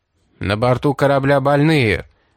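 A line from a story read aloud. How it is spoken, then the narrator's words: Booming voice. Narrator (Russian): прогремел голос Хована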